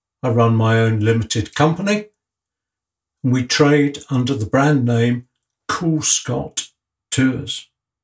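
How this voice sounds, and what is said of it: English accent. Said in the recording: “one or two of you can perhaps tell by my accent, I'm an Englishman”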